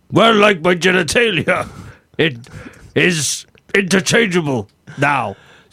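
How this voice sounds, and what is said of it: Put-on German accent slipping toward British. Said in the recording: “Your accent is travelling around a bit. ... your German accent is kind of disappearing a little.”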